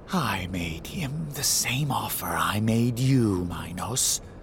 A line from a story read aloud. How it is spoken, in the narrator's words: he whispers